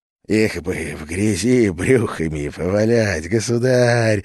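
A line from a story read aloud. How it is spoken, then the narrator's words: Lustful whisper. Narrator (Russian): сладострастно шепнул Иоанну Растриговосян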